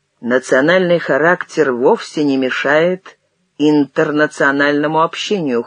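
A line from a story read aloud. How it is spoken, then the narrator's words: Cold objection. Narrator (Russian): холодно возразил Успенский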